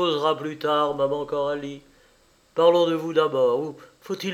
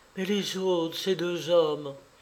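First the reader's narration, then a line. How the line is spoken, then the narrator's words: Trembling voice. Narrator (French): Et elle ajouta d'une voix qui frémissait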